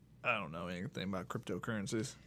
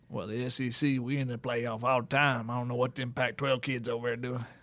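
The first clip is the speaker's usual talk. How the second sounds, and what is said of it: Put-on Southern Louisiana accent. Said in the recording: “Got Southern for that. ... I don't know where that accent even came from. ... that's probably a Louisiana one.”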